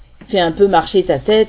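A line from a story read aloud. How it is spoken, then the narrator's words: Slightly annoyed exclamation. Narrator (French): me suis-je exclamé d'un ton légèrement agacé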